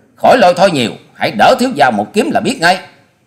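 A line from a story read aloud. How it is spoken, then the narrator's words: Loud barking. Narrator (Vietnamese): Hoa Sĩ Kiệt nạt to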